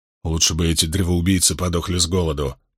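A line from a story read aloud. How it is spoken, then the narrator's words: Grumbling mutter. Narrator (Russian): пробурчал Баэл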